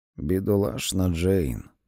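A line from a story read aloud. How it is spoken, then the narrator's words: Muttered. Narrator (Ukrainian): пробурмотів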